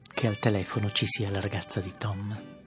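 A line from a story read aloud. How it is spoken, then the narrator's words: Whispered. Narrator (Italian): bisbigliò Jordan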